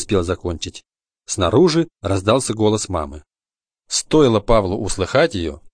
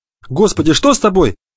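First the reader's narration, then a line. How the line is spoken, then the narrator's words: Exclaiming. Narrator (Russian): воскликнула мама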